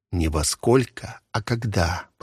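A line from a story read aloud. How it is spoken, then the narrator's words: Whispered in her ear. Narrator (Russian): прошептал он ей в ушко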